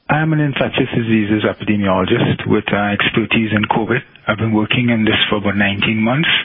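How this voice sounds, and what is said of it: Slightly broken foreign accent. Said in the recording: “he's got a little bit of a broken accent.”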